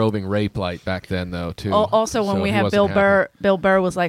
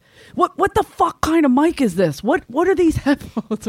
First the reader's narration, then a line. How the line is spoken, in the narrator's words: he's yelled the entire time